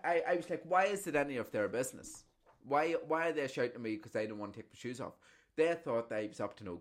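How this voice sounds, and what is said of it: Usual voice. Nothing is said of it.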